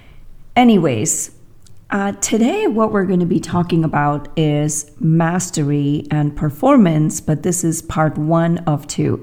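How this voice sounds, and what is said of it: Impaired, unusual-sounding voice. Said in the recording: “Pardon my voice, something happened to my voice.”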